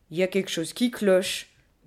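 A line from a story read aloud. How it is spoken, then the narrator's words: Grumbling gorilla. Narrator (French): bougonna la gorille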